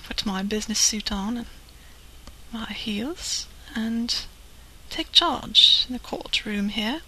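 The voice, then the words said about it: Sultry, sexy put-on voice. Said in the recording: “I sound pretty sexy.”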